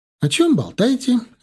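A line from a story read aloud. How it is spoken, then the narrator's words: Cheerful pleased question. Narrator (Russian): весело поинтересовалась размявшаяся и очень довольная от этого Лера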